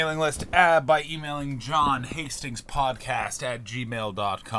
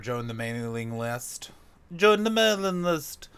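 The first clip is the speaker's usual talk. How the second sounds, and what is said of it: Weird affected put-on accent. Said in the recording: “That was a weird affected accent.”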